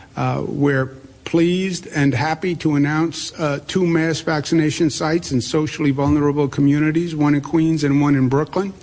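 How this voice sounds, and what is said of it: Queens New York accent. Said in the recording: “This is a Queens accent, by the way, not just a New York accent.”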